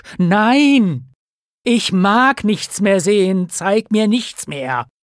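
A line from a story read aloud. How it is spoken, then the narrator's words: Cry. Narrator (German): rief Scrooge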